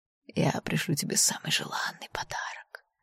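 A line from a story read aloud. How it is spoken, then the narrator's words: Dragon's whisper. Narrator (Russian): прошептал кровавый дракон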